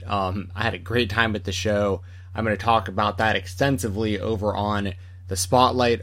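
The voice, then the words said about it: Tired, exhausted-sounding voice. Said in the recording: “I don't know if you can tell in my voice, I am exhausted tonight.”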